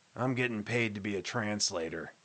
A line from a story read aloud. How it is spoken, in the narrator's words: he muttered